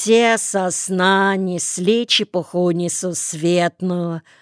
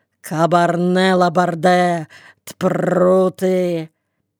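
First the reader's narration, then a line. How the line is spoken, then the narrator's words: Growling. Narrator (Russian): рычали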